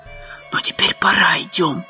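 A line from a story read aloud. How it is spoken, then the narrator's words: Whisper. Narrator (Russian): прошептал Том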